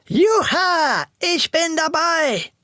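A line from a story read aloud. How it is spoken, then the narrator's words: Excited shout. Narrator (German): Schon in Rodeo-Stimmung versetzt schrie er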